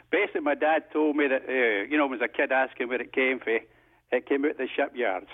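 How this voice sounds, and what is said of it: Scottish accent. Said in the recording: “you can tell by my accent from Scotland”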